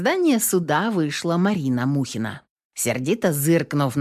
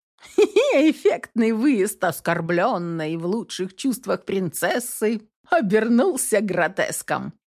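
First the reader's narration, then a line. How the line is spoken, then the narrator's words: Giggled. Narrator (Russian): хихикнула Белла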